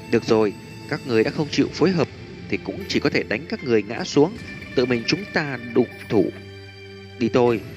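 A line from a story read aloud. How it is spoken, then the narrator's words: Soft, smiling. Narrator (Vietnamese): Thanh niên tóc dài cười tủm tỉm khẽ nói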